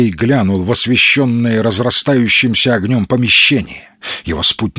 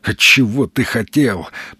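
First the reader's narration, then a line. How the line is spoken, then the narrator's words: Muttering to oneself. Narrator (Russian): пробормотал бумажник сам себе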